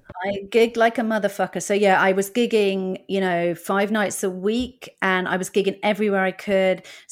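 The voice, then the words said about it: British accent. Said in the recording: “You do get a long way with a British accent and ginger hair in the States.”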